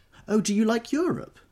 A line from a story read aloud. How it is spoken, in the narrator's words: She exclaimed surprisingly